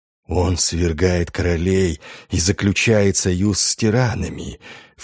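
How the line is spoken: Insinuating whisper in ear. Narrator (Russian): вкрадчиво прошептали на ухо

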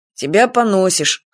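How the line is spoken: Grunt. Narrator (Russian): хмыкнул он

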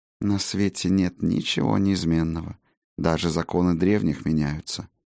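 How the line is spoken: Soft. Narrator (Russian): мягко произнесла Сигарлин

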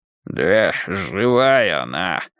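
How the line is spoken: Hoarse gray-haired man. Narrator (Russian): хрипло сказал седовласый

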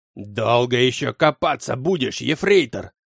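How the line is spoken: Angry barked shout. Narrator (Russian): зло гаркнул мне Клаус Мария

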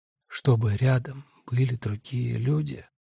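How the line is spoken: Barely audible whisper. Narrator (Russian): почти беззвучно прошептал Хенрик

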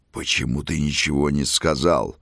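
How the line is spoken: Angry growl. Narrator (Russian): рычал князь на итальянца

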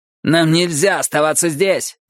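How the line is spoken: Shout. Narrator (Russian): крикнул он

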